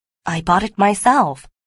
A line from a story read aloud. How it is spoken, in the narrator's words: replied Porthos